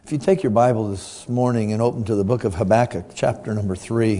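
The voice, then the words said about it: Weak voice after illness. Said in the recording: “apologize for my voice now. It will, Lord willing, get stronger throughout the week ... just gotten over whatever sickness”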